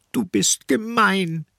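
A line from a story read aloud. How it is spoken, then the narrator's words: Woman sobbing. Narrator (German): schluchzt sie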